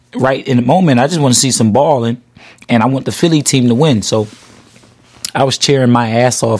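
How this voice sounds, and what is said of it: Hoarse voice. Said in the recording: “If y'all can hear it, I'm a little hoarse.”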